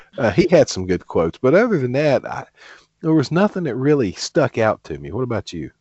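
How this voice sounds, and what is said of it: Usual voice. Nothing is said of it.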